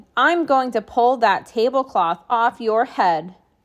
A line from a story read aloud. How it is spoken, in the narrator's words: a boy yelling